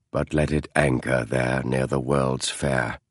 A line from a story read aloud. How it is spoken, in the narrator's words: he said in the same monotone as before